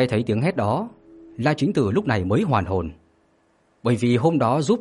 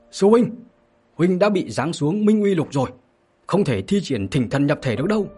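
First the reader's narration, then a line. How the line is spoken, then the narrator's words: Sudden shout. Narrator (Vietnamese): đột nhiên có người hét lên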